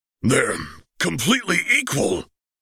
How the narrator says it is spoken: gasped Piccolo

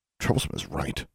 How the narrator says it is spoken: under his breath

